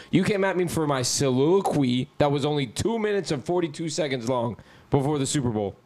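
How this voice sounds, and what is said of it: Hoarse voice. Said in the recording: “my voice is kind of hoarse because I was yelling at the Inter-Miami game”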